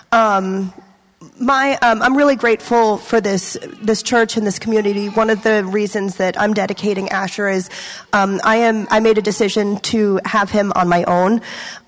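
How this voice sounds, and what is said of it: Slightly congested voice. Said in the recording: “I have a bit of a cold”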